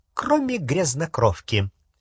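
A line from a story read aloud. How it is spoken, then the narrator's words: Gleeful snort. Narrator (Russian): Сивый радостно хмыкнул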